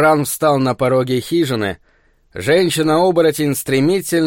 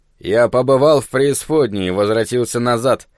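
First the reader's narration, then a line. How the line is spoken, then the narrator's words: Grumbling. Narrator (Russian): проворчал он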